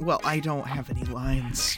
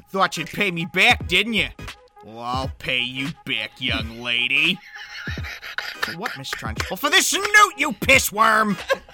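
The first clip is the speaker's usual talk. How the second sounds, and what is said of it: Put-on Boston accent. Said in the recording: “Can I hear a little bit of your Boston accent? ... there's my Boston.”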